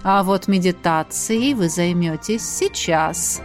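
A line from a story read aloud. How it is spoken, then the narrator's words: Meaningful purr, mentor. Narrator (Russian): многозначительно мурлыкнула наставница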